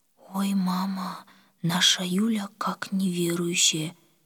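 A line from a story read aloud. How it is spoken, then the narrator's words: Quiet. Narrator (Russian): тихо сказала Оля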